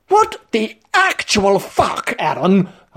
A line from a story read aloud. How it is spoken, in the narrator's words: I exclaimed